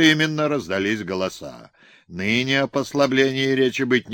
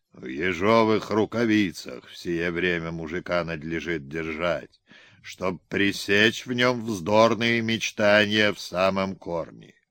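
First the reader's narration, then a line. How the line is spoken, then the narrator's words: Stately man, deep bass. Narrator (Russian): Сосед графа, солидный, осанистый человек, сказал басом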